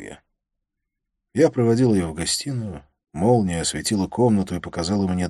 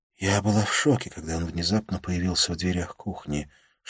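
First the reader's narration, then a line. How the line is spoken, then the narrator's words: Whisper. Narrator (Russian): шептала она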